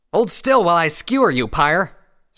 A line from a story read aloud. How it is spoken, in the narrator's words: Scarlet Rabbit shouted